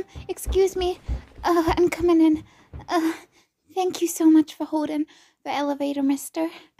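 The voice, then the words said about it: Breathless, out-of-breath speech. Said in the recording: “Sorry, I'm out of breath from just running.”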